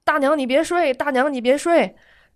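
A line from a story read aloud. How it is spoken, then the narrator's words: Calling out. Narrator (Chinese): 帘儿的那边在喊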